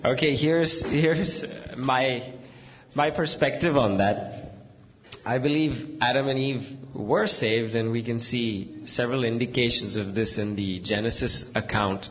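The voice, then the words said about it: Scratchy voice. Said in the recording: “My voice is scratchy.”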